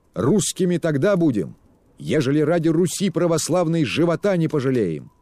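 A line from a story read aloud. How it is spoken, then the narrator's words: Shouted, young strong voice. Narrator (Russian): крикнул он неожиданно молодым, сильным голосом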